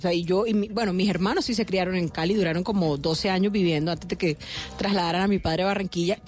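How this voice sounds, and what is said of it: Colombian Caribbean coastal accent. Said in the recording (Spanish): “usted tiene acento costeño, pero usted no es de la costa”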